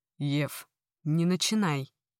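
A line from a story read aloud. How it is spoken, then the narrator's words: Rough, tense male voice. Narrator (Russian): Грубо и напряженно проговорил мужчина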